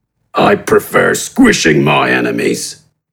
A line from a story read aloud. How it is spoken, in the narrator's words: responded gruffly